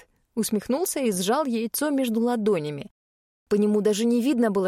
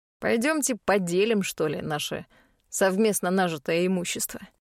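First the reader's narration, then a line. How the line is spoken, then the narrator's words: Smirking snort. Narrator (Russian): хмыкнул Хайт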